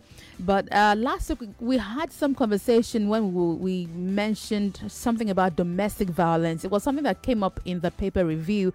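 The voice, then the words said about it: Hoarse, sore-throated voice. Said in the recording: “apologize in advance for my voice ... I've got a sore throat.”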